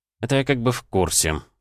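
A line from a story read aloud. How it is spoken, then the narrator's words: Amused snort. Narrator (Russian): хмыкнул я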